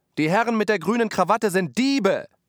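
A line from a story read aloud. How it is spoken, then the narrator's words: Several voices shouting. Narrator (German): manche schrien mit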